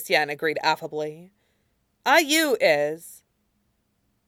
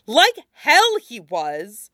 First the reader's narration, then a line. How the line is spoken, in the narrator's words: Wei Wuxian snapped over him